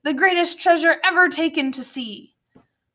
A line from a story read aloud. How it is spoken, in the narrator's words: shouted